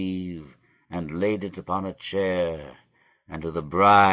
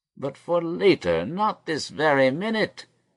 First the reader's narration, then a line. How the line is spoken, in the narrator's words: cried Jacob in his distress